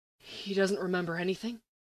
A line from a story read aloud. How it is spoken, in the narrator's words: he asks quietly